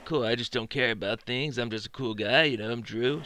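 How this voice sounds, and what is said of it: Imitates another person's voice. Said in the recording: “my Drew impression”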